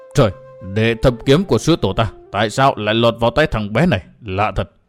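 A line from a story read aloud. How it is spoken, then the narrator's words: Startled old man muttering. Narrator (Vietnamese): lão giật mình lẩm bẩm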